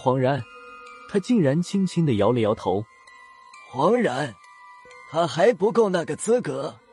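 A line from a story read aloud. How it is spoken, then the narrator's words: Light chuckle. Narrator (Chinese): 闵天元轻笑了几声，说道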